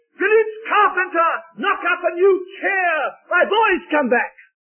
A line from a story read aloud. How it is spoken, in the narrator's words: shouted